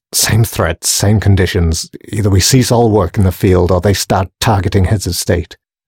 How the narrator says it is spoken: sighed another man nervously

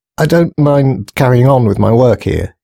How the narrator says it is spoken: he stuttered

